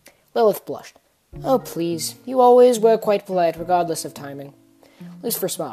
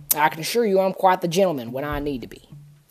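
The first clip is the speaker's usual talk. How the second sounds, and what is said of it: Country accent character voice. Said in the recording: “my country accent”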